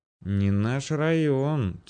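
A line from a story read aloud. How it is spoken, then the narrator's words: Quiet wary mutter. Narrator (Russian): тихонько пробормотал, явно сообразивший, что дело с душком Грицко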